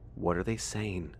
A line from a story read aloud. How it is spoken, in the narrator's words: His voice was still as neutral as ever